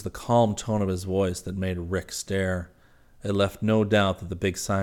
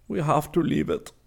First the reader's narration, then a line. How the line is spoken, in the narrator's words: Weiss said sadly